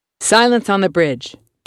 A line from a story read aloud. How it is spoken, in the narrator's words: Gaston snaps